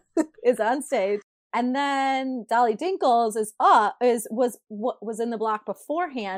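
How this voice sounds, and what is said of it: Thick Michigan accent. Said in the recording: “your accent just makes it so much better... I have a thick Michigan accent... It's never going away.”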